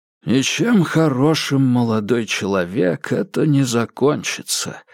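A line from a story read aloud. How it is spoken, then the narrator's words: Sighing. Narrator (Russian): вздохнул Леонид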